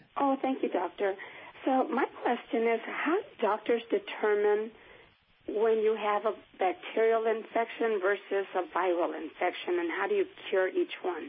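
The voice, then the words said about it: Hoarse, weak voice from a cold. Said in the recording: “I have a really bad cold, and I've lost my voice.”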